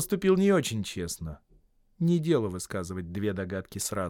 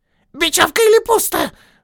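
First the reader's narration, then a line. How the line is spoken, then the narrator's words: Shrill squeal. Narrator (Russian): взвизгнул Голлум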